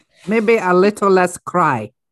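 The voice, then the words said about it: Poor attempt at a put-on accent. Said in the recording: “I need to work on that accent. That's not very good.”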